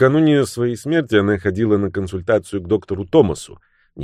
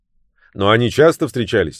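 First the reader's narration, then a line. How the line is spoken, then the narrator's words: Sharp clarification. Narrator (Russian): резко уточнил Люк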